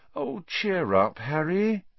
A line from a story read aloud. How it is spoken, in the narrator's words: said Hermione sadly